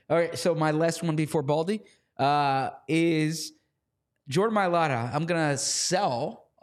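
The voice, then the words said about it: Slightly hoarse voice. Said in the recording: “Are you sick? ... I think my voice is a little more hoarse than it usually is”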